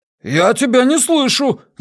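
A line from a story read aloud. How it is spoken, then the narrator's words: Yelled back. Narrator (Russian): заорал в ответ Джеспер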